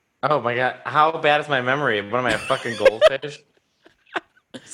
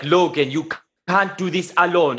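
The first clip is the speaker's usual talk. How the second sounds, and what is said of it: Imitates a weird accent. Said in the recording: “weird accent”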